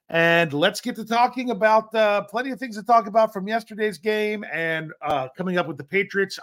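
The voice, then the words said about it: Hoarse, run-down voice. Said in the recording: “I sound a little bit hoarse or just run down”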